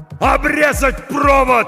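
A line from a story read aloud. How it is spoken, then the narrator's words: Shout. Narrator (Russian): закричал Хой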